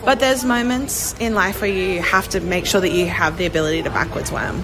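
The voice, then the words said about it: Hoarse, mostly lost voice. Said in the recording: “I have lost my voice.”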